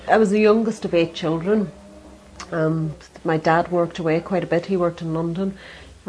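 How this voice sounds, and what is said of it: Irish accent. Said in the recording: “I don't think my accent has really changed ... I sound really Irish”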